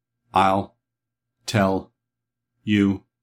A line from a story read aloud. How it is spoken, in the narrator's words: answered TikTok in his monotonous voice, all the sounds of his words being on one level